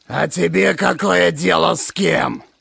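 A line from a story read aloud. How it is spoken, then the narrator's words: Angry monster voice. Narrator (Russian): Зло проговорило чудище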